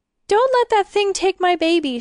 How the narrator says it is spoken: she sobbed

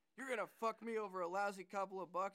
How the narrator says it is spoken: he heard the man yell

